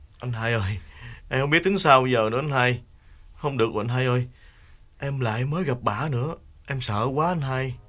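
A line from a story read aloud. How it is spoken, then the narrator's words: Whimpering, near tears. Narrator (Vietnamese): Đào mếu máo kể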